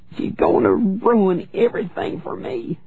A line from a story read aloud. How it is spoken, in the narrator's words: she sobbed